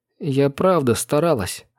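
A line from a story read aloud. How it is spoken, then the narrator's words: Sad mumble. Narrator (Russian): грустно промямлила Несси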